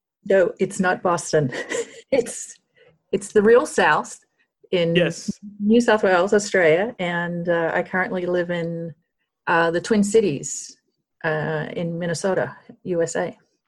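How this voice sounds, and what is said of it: Hybrid American-Australian accent. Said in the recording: “she has an amazing hybrid accent ... you've got a hybrid American-Australian accent”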